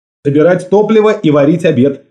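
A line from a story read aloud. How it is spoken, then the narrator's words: Quick answer. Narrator (Russian): ответил я быстро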